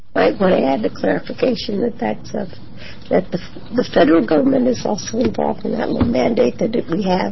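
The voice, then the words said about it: Hoarse, losing voice. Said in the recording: “I'm sorry for my voice loss ... A lot of people are losing their voices today.”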